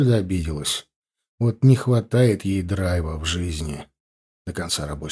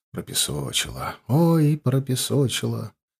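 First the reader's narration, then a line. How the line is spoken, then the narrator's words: Theatrically tragic voice. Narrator (Russian): ответил я театрально-трагическим голосом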